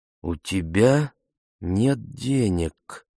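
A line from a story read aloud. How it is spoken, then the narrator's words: Slow, careful questioning. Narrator (Russian): переспросила Ефемилу медленно, чтобы окончательно прояснить, чтобы убедиться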